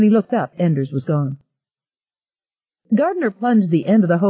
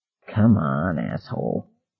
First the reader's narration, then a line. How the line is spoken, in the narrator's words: he muttered